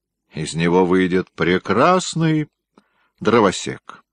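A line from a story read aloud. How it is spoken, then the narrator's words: Mocking elderly gentleman. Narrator (Russian): насмешливо произнес пожилой пан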